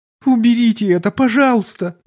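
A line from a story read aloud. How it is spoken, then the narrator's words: Pleading girl. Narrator (Russian): взмолилась девушка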